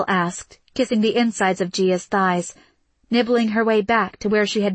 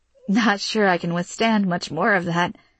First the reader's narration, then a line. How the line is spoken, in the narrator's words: Gia said with a laugh